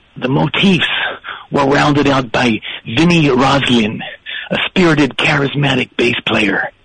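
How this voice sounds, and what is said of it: Imitates another person's voice. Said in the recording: “I'm nowhere as good an accent guy as you. But so here's Bruce now.”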